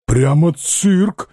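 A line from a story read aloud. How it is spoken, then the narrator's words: Bewildered exclamation. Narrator (Russian): воскликнул Шура, ничего не поняв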